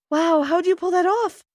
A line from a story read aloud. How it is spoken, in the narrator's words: I gasped